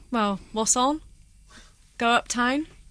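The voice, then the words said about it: Bristolian accent. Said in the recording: “from round that way. She can teach you. ... Give me a little Bristolian.”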